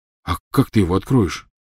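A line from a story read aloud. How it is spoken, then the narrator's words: Frightened question. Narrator (Russian): испуганно спросил Рон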